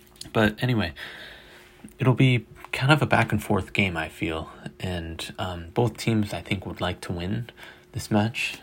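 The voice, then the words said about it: Slightly hoarse, fading voice. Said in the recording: “losing my voice here a little bit”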